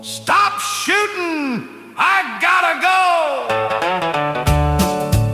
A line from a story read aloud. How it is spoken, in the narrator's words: shouted at them all